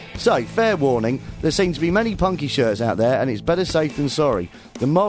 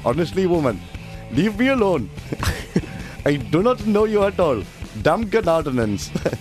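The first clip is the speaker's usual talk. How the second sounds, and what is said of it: Put-on East Indian accent. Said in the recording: “this next part must be done in an East Indian accent.”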